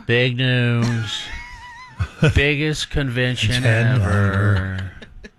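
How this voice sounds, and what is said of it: Poor Donald Trump impression. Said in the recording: “you don't do a very good Donald Trump impression ... Doing a terrible impression.”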